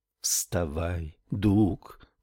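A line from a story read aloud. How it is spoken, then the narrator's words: Whisper. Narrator (Russian): прошептала Ив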